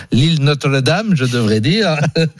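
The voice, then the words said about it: Put-on Canadian French accent. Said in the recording (French): “Quel accent canadien.”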